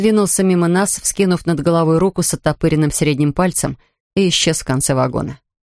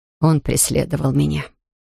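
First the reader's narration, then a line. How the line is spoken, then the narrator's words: Very quiet. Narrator (Russian): произнесла она очень тихо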